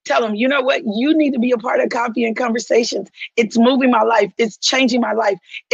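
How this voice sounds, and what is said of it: Southern accent with slight Michigan tinge. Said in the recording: “I'm a Southern girl with a little bit of a Michigan accent, right? By way of California.”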